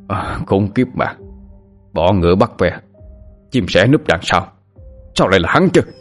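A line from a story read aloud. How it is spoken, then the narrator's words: Growling. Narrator (Vietnamese): Người đàn ông vận đồ đen gầm gừ nói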